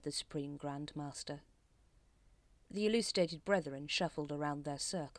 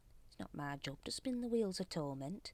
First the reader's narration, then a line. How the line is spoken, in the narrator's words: muttered Brother Watchtower